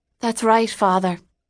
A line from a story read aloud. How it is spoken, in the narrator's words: Katie said with a sigh